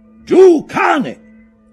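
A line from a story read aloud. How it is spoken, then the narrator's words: Captain shouting. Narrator (Italian): gridò il capitano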